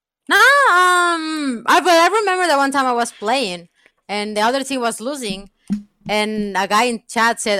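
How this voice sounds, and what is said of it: Indian English accent. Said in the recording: “The Indian. ... I'm an Indian because I also have the accent.”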